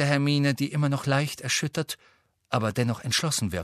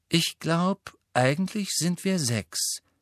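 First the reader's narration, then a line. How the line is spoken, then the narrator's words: Calm. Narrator (German): sagte Luna ruhig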